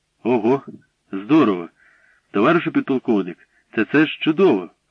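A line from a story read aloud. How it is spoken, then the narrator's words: Delighted exclamation. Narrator (Ukrainian): вигукнув захоплено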